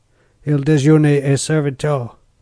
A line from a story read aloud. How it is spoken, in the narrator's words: said gruffly